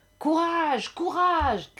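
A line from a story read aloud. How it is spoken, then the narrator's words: Shouting. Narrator (French): criait-on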